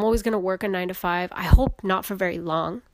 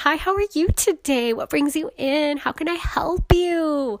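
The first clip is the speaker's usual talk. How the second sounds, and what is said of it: Cheerful customer service voice. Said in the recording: “that customer service voice”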